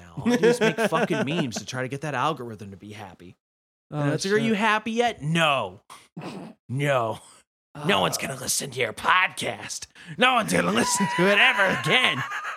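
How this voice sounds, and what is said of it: Put-on character voice. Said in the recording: “What was that voice? ... I'm the algorithm.”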